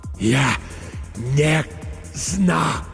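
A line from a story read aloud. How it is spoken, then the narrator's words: Breathed out. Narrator (Russian): выдохнул Петр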